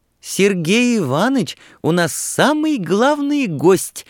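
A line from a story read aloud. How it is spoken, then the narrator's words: Naive squeal. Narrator (Russian): наивно взвизгнула Нюра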